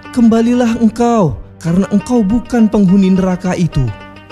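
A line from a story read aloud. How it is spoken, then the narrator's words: Scream calling out. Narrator (Indonesian): Namun pada waktu itu seseorang menjerit memanggilku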